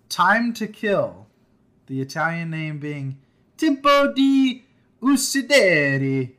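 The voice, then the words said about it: Bad put-on Italian accent. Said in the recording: “That's my best worst Italian accent ... Yeah, that's terrible.”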